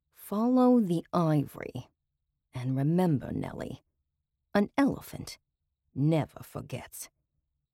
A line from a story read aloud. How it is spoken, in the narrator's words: lowered her voice, whispering into the tape recorder